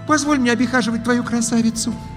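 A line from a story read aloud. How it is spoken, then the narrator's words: Pleading young witch. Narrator (Russian): взмолилась белокурая ведьмочка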